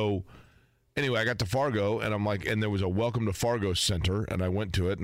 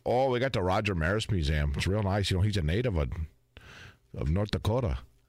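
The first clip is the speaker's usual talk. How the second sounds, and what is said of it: Strong North Dakota accent. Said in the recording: “Is the accent that strong? ... It's pretty strong.”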